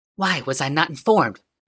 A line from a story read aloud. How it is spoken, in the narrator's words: She said hotly